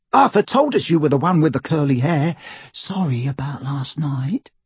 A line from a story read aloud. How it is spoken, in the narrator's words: she added in a whisper